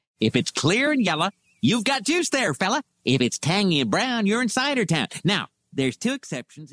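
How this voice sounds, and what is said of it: Ned Flanders impression. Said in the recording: “Good Ned Flanders impression.”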